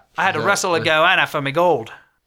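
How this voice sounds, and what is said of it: Bad fake Australian accent. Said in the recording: “pretty bad Australian accent”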